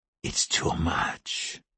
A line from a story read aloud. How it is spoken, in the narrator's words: she said softly